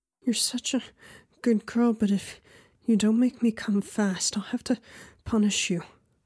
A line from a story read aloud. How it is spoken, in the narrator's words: she said between frustrated, panting breaths